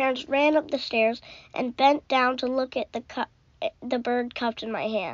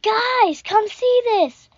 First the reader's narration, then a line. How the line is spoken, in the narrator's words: yelled